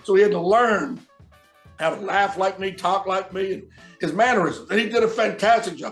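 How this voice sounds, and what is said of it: Southern US accent, gravelly voice. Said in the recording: “that's where the southern accent ... He sure don't have the gravel voice of me”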